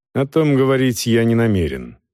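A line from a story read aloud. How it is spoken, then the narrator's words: Dry reply. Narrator (Russian): сухо отвечал Волков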